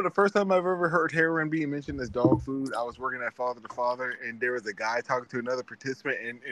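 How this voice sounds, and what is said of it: Usual voice. Nothing is said of it.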